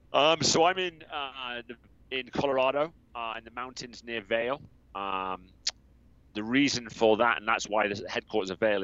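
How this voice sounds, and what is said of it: Southwest English accent, some American influence. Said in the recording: “I'm originally from the southwest of England. I'm regularly mistaken for an Aussie because of the US effect on my accent ... the confusing accent is due to being here for 18 years.”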